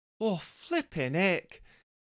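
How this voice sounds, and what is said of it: Put-on Scottish woman's accent. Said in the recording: “have Jessica as Scottish”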